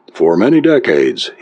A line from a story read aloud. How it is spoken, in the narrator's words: said